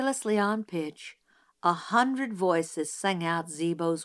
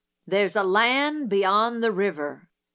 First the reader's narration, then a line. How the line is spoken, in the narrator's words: Zebo read in a voice like the rumble of distant artillery